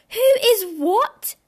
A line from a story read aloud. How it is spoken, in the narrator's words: cried, tumbling over each other